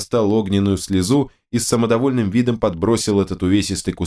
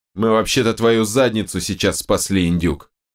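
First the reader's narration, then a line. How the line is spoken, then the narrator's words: Contemptuous snort. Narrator (Russian): презрительно фыркнул Терехов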